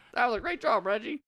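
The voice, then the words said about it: Puts on a silly character voice. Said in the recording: “I don't know why I'm doing a voice. Because Reggie would do his own voice.”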